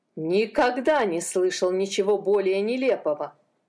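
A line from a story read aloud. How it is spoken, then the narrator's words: Laughing. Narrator (Russian): засмеялся он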